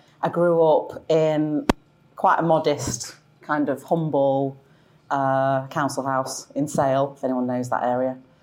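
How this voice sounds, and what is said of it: Manchester accent. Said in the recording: “I'm from Manchester. I feel like I've held on to my accent”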